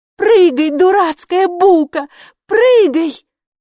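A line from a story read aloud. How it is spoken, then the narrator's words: Shouted. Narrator (Russian): закричала Хилла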